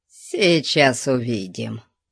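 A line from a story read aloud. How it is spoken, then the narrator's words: Quiet but resolute. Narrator (Russian): Тихо, но решительно сказал Конан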